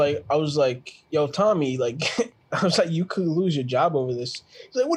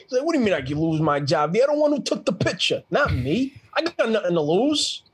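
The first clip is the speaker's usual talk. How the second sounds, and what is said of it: Impression of New York Italian man. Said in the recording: “He's Italian too. He's like mad, like New York Italian ... he's from the Bronx ... it looked like you were about to do a impersonation ... That was really good.”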